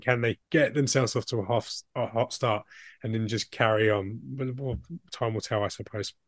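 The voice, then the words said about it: Strained, fading voice. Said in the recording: “Sorry, I'm losing my voice here.”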